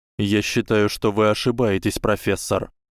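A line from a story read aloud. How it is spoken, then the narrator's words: Calm answer. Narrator (Russian): спокойно ответил Гарри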